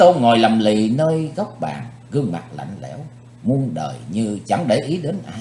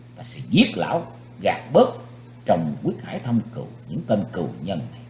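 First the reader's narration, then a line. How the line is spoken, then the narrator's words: Hissed through clenched teeth. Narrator (Vietnamese): Chí Tôn rít khẽ qua hai hàm răng cắn chặt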